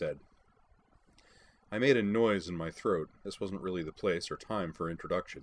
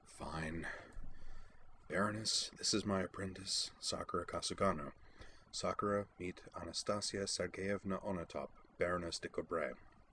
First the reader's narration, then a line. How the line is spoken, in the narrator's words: muttered with only mild sarcasm